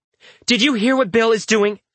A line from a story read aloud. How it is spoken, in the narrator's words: She snaps